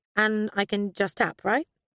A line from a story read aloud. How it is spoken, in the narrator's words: Zofia smiled brightly